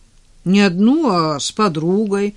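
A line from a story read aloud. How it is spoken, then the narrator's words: Offended objection. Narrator (Russian): обиженно возразил Денис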